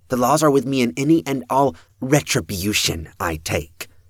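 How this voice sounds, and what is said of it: Heavier accent, forceful delivery. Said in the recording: “Her words took on a heavier accent and a fair degree of force as she said retribution.”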